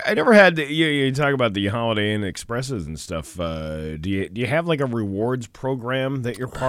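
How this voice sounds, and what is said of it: Usual voice. Nothing is said of it.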